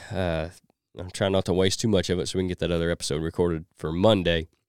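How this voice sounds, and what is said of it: Voice strained by a cold. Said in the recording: “I'm fighting this cold some, so my voice isn't where it should be.”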